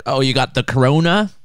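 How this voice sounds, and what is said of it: Bad put-on Australian accent. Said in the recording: “That was a really bad Australian accent.”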